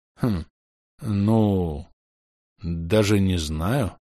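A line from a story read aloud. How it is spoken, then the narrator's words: Drawn-out hesitant. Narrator (Russian): протянул Майк в конце концов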